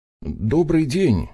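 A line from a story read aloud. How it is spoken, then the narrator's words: Uncertain young man. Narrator (Russian): неуверенно обратился парень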